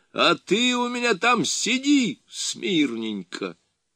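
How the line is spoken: Shouting after runner. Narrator (Russian): закричал вслед бегущему Державину

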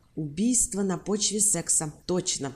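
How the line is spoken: Plain. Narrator (Russian): сказал Барни

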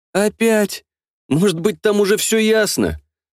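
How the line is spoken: Smiling plea. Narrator (Russian): с улыбкой взмолился я

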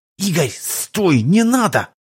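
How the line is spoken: Hissed. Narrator (Russian): прошипел контрабандист

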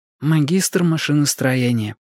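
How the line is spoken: Muttering. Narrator (Russian): пробормотала она

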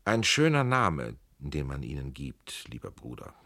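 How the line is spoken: Gentle. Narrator (German): sagte sanft der Prinz von Preußen

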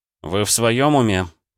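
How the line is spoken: Groaned. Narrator (Russian): простонал я

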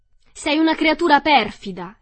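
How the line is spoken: Angry yell. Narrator (Italian): le urlò Dorothy

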